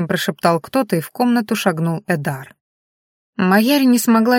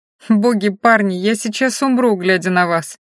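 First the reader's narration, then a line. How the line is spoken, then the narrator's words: Moaning. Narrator (Russian): простонала Майяри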